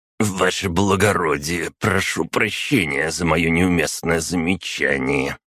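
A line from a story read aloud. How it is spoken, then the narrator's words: Through gritted teeth. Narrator (Russian): сквозь зубы произнес он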